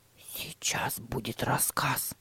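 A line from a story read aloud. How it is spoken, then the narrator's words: Whisper. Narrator (Russian): прошептал Тима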